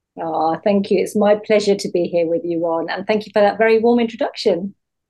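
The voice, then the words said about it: British London accent. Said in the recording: “I don't recognize a Philadelphia accent. ... I'm here in London, in the UK. Well spotted.”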